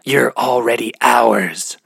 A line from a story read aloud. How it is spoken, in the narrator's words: the singer whispered in her ear